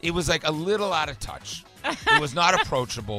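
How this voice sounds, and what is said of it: Usual voice. Nothing is said of it.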